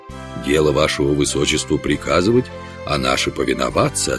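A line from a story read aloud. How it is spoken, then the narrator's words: Plain. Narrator (Russian): ответил лорд Гертфорд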